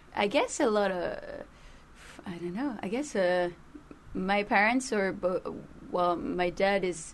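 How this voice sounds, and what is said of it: French accent. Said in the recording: “my accent is really messed up ... I'm from Paris. I'm French ... kind of understand by my accent”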